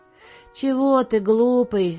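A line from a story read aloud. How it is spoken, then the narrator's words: Joyful question. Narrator (Russian): радостно спросил тот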